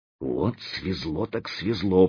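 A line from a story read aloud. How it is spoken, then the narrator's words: Muttering. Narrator (Russian): пробормотал Стопка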